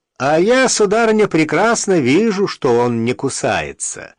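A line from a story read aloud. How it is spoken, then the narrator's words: Resonant voice. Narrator (Russian): ответил звучным голосом человек под сосной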